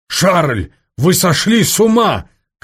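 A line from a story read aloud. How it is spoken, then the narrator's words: Shouted. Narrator (Russian): крикнул Соболев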